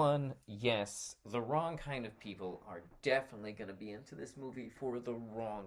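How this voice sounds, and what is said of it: Usual voice. Nothing is said of it.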